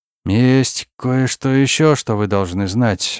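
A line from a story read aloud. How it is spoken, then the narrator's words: Hesitant. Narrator (Russian): начал он неуверенно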